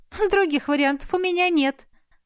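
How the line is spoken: Laughing. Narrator (Russian): рассмеялась подруга

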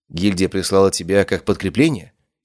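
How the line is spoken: Plain. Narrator (Russian): спросил Корвин

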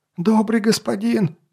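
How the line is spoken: Squealed. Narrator (Russian): завизжал он

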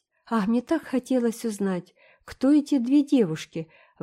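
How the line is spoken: Ardent female exclamation. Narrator (Russian): воскликнула она с жаром

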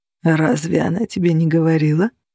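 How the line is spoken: Purring. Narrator (Russian): промурлыкал Влад

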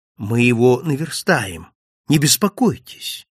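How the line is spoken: Calm reply. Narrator (Russian): спокойно ответил

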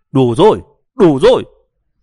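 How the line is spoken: Exasperated shout. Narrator (Vietnamese): Đậu Tự Lực cuối cùng không chịu đựng nổi nữa, quát lên với mấy tiếng

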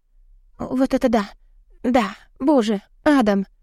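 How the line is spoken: Aroused whimper. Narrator (Russian): Хныкаю, когда он чувственно замедляется и вновь заставляет всколыхнуться утихающие волны возбуждения

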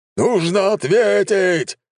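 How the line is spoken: General's roar. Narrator (Russian): взревел генерал

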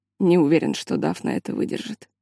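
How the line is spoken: Quiet. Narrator (Russian): тихо сказал мужчина

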